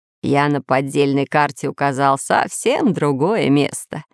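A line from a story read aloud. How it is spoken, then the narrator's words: Laughing. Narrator (Russian): смеялся географ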